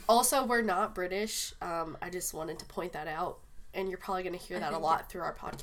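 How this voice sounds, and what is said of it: Congested voice from a cold. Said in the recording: “I have a cold right now ... this isn't my voice ... she doesn't normally sound this, like, nice”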